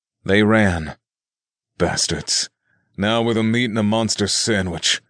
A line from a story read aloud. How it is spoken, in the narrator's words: the mace wielder grumbled